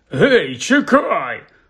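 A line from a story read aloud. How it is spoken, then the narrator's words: Angry bark. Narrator (Ukrainian): гаркнув дядько Вернон, люто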